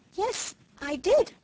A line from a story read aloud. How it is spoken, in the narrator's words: faltered Felicity, beginning to look scared